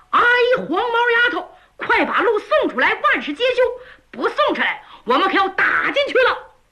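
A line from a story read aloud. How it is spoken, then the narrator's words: Loud straining shout. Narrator (Chinese): 扯着嗓子冲着里边喊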